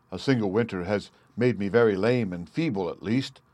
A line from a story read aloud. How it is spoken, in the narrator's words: said Loki